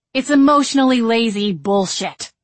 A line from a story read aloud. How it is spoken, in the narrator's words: she snapped